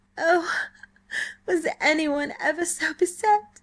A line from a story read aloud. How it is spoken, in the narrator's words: she sobbed, as her misery swept in upon her with full force